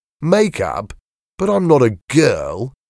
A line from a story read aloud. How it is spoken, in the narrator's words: exclaimed